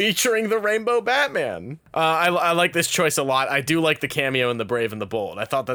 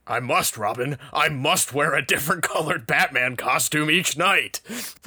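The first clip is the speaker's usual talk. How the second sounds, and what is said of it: Imitated Batman character voice. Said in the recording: “my Batman voice to just ... doing the voice for Batman”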